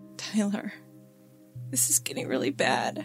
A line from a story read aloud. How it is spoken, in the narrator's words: Nancy said, her voice trembling with concern